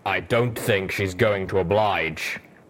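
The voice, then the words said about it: Deep, wry male character voice. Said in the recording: “Steelhoof's deep voice wryly commented”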